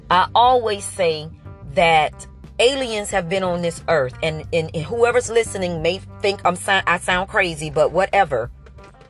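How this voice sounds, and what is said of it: Emotional, strained voice. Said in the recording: “my voice is getting, because I'm getting a little emotional”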